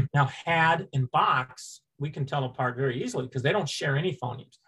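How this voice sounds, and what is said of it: Upstate New York accent. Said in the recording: “my upstate New York accent”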